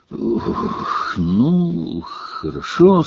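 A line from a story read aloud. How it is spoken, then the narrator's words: Weak voice. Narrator (Russian): сказал премьер-министр слабым голосом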